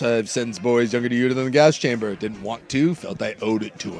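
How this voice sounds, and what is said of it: Hardcore Southern judge accent. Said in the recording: “Southern, hardcore Southern lawyer judge ... It's the scariest courtroom accent.”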